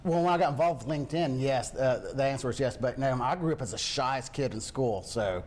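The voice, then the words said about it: Thick country accent. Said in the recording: “Do you hear this accent? I mean, at 45 years old, I have this thick country accent”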